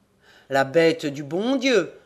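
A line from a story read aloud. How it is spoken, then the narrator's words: Old man grumbling. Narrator (French): bougonna le père Jacques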